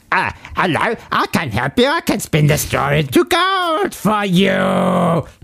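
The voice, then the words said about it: Little gnome-man character voice. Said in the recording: “That's how he sounds... He's a little gnomey man... a reductive accent... I'm doing”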